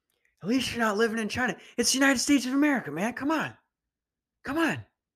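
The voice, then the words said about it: Imitates another person's voice. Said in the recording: “my Joe Biden impression”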